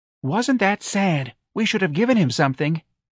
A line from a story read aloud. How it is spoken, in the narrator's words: I heard one kindly lady say